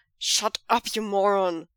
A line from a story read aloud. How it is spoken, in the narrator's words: Cheng Cheng growls